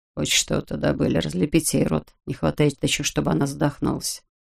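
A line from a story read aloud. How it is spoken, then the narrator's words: Low undertone. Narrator (Russian): Тарасов сказал вполголоса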